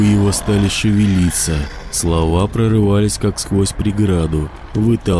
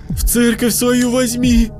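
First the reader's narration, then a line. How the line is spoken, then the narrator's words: Yelling aloud. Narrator (Russian): орал уже вслух Костик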